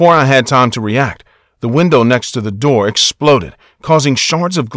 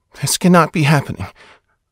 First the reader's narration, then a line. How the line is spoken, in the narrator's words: repeated to myself as quietly as possible